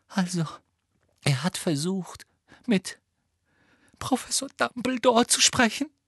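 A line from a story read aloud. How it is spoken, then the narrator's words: Choked voice, muffled by hands. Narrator (German): sagte Hermine mit erstickter Stimme in ihre Hände hinein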